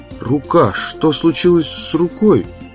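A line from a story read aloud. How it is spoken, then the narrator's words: Weak voice, asking. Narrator (Russian): слабым голосом спросил барни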